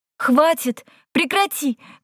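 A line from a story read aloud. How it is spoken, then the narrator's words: Waitress shouting. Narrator (Russian): кричала одна из официанток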